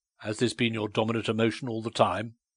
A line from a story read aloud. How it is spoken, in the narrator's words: he said harshly